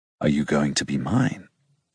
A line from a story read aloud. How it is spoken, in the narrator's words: He asks so low that the tenor of his voice vibrates on my skin